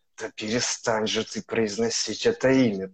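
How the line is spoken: Hissed. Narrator (Russian): прошипел Рон

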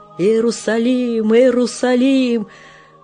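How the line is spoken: Shouting through sobbing laughter. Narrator (Russian): кричал сквозь рыдающий хохот

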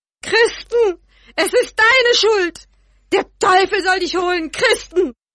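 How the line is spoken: Screaming. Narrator (German): So schrie sie

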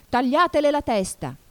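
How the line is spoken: Screaming at full voice. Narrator (Italian): urlò la regina con quanta voce aveva

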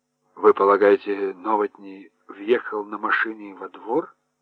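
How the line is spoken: Mumble. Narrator (Russian): пробормотал Хорншу

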